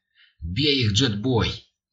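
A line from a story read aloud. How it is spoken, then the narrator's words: Laughing. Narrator (Russian): Бобби рассмеялся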